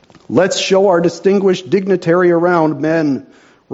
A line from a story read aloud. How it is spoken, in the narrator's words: roared Grizzleneck with mock fanfare